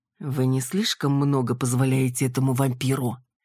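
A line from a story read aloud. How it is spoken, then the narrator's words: Calm, indifferent. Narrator (Russian): Северный говорил спокойно и равнодушно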